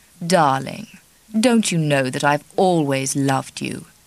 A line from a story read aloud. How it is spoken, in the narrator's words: He said in his deep, charming voice